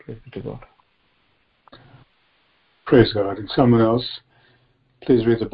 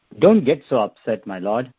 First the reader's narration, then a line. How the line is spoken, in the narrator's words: Aaron replied